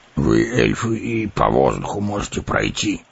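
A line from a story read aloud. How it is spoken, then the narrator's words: Grumbling dwarf. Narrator (Russian): проворчал гном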